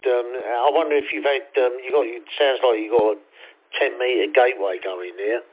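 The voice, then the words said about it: Cockney London accent. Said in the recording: “I've got the Cockney accent going on... They think I'm from Australia”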